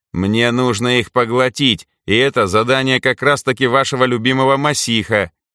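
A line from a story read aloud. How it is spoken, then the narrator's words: Mocking snort. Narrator (Russian): хмыкнул насмешливо Митька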